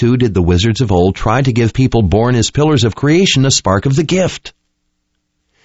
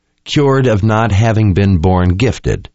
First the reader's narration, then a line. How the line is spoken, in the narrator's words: she said in a flat tone of incredulity